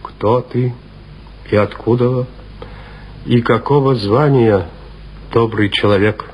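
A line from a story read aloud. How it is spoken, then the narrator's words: Neither kind nor stern. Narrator (Russian): сказал сотник ни ласково, ни сурово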